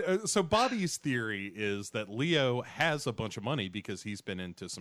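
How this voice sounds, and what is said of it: Usual voice. Nothing is said of it.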